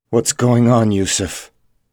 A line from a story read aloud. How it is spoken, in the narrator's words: Benjamin asked coldly